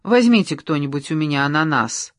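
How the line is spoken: Pleading. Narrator (Russian): взмолилась Вера

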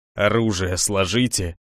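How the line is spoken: Hoarse wheeze. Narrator (Russian): прохрипел Илья

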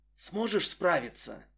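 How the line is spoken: Whispered question. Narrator (Russian): шепотом спросил Вик

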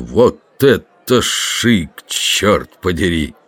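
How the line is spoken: Muttering. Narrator (Russian): бормоча

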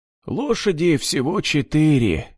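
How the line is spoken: Sigh. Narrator (Russian): вздохнул Аким

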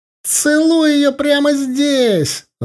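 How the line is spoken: Shrill yell. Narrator (Russian): заорал тот же пронзительный голос

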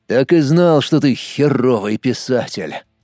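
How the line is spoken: Breathless exhale. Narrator (Russian): выдохнул Колян

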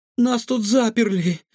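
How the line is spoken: Breathless. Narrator (Russian): выдохнула Илона

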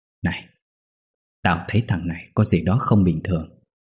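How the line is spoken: Whispering. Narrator (Vietnamese): Ông Thực thì thầm

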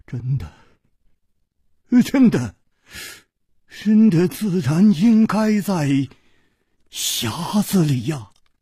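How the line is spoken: Trembling voice. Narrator (Chinese): 公子金半花的面色又变了，他颤声说

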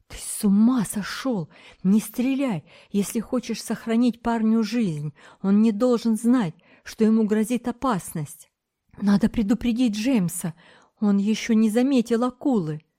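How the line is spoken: Agitated objection. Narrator (Russian): взволнованно возразил Томык

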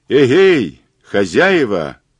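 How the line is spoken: Loud shout. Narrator (Russian): громко крикнул Мазур

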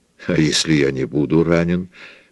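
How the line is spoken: Plain. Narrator (Russian): спросил Роберт Джордан

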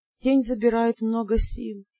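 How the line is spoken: Weary reply. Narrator (Russian): устало отозвался

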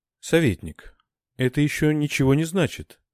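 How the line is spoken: Gentle smiling interjection. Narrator (Russian): мягко улыбнувшись, попробовал вставить арбитр

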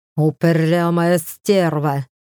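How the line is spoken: Sudden bark. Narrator (Russian): внезапно рявкнул он

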